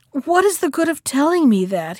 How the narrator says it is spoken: he asked in a weepy voice

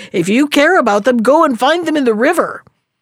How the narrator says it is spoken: cried he

